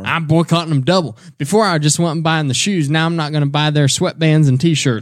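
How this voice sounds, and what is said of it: Put-on Southern US accent. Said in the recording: “I do that Southern accent whenever I say stuff like that.”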